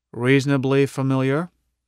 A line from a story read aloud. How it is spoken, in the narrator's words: I said